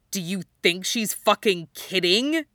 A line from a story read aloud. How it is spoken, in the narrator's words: He growls